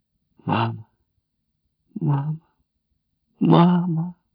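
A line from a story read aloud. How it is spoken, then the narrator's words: Quiet crying. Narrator (Russian): Тихо плакал Джек Маллан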